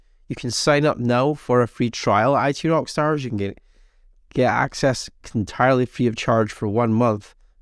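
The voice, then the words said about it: Hoarse, fading voice from a cold. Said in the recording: “I'm losing my voice. I've like had this really bad cold for the last month now.”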